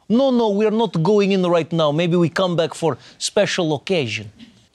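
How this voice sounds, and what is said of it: Put-on Russian accent. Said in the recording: “anybody with a Russian accent”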